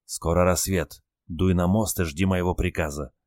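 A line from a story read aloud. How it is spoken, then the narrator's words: Whisper. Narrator (Russian): шепнул моряк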